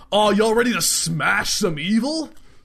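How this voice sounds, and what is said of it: Casual bro dude voice. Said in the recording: “talks like a dude, bro.”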